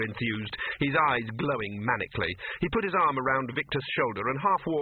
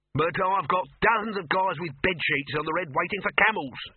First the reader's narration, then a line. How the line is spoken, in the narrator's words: shouted Dibbler